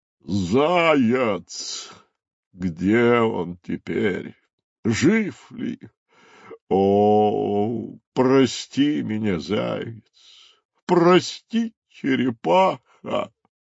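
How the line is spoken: Moaning. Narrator (Russian): стонал носорог

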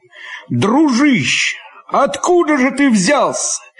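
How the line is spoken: Shouting from afar. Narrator (Russian): еще издали прокричал Лопахин

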